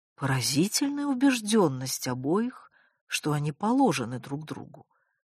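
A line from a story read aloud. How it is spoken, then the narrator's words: Quiet mother's voice. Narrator (Russian): негромко сказала мама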